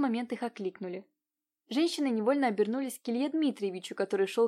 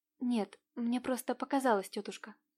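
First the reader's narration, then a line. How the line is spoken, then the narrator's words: Relieved quiet exhale. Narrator (Russian): С облегчением выдохнув, тихо произнесла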